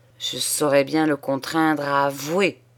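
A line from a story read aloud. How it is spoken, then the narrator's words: Growled through teeth. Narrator (French): gronda-t-il entre ses dents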